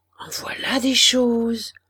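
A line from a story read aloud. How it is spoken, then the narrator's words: Murmured, smiling. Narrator (French): murmura Alzire en souriant aux provisions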